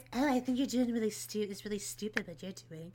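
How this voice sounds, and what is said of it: Mocking girly voice. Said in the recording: “Him being a girl voice.”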